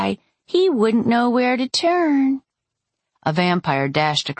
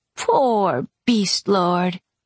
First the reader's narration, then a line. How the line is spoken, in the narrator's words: she purred